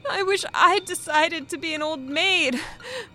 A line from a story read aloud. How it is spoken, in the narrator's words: she sobbed